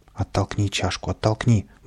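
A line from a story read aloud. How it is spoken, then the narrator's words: Muttering. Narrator (Russian): бормотал Каприска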